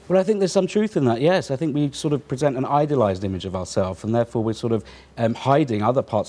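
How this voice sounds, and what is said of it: British accent. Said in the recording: “everything's better in a British accent”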